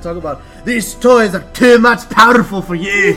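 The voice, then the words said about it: Put-on Scottish accent. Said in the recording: “With his Scottish accent ... That's pretty good ... That was pretty good”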